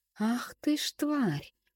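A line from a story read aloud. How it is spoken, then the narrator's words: Drawn-out exhaled words. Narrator (Russian): протянул на выдохе Степанов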